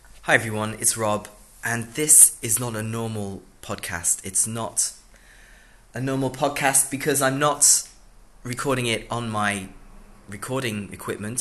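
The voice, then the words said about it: Sick voice with sore throat. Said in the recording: “you might be able to hear from my voice that I'm a bit sick. I'm a bit sick right now. I have a cough and a sore throat ... my throat is sore”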